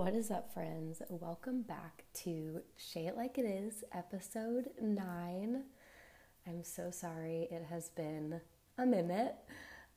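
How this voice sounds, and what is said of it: Sick-sounding voice. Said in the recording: “I got really, really sick again. You can probably tell in my voice”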